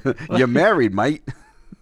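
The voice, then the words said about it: Crocodile Dundee style Australian impression. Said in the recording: “your Crocodile Dundee impersonator”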